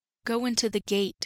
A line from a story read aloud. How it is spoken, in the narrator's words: he said